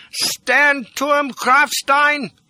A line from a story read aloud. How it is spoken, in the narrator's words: shouted